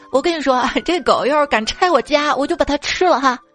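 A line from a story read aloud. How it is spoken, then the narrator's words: Joking. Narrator (Chinese): 开玩笑说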